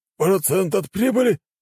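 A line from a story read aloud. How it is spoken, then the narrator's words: Nearly shouted. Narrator (Russian): едва не выкрикнул Дамир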